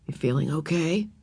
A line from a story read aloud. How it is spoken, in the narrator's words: whispered